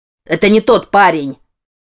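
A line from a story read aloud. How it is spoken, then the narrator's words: Barked. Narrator (Russian): рявкнул Крис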